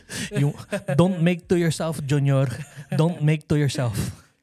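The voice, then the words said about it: Filipino aunt accent. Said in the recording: “in a Filipino aunt voice ... that's the Filipino accent”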